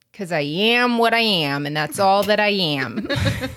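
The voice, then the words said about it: Cartoon voice with Massachusetts accent. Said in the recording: “I think I gave Popeye a, like, Massachusetts accent”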